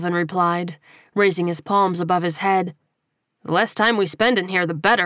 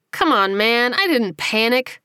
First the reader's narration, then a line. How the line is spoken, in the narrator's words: his shorter friend whined